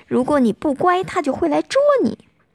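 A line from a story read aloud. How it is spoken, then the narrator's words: Old woman, loud. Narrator (Chinese): 有位老奶奶大声地说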